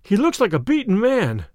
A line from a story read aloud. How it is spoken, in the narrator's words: cried Phelps